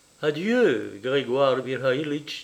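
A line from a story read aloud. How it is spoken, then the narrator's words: Plain. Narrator (French): dit Irène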